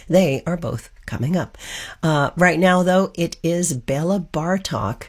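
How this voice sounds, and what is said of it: Hoarse, froggy voice. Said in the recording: “Please forgive the hoarse voice. I'm a little froggy tonight”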